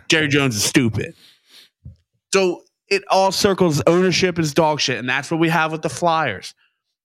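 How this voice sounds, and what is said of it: Out of breath from ranting. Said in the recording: “I'm out of breath because you got me ranting.”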